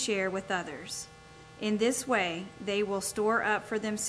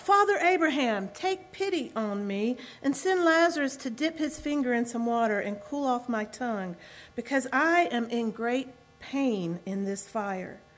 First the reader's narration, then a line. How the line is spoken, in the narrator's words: So he called out